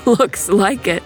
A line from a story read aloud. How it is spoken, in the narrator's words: Jack laughed